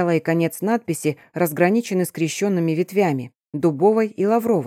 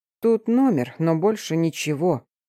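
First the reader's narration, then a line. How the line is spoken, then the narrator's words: Investigator grumbling. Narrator (Russian): проворчал следователь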